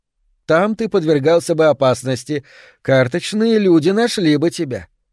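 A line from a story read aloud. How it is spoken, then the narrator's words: Cheerful, somewhat affected. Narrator (Russian): сказала она весело и несколько жеманно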